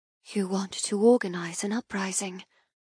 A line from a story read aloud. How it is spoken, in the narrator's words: I whisper